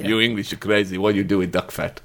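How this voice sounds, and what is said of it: Mock Russian accent. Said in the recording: “quite a good impersonation of an English person doing the Russian accent, which we now think is how Russian people talk”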